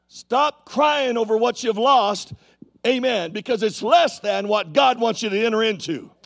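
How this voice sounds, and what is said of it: Yelling, loud preaching voice. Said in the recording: “That's why I'm yelling, because I can't hear myself.”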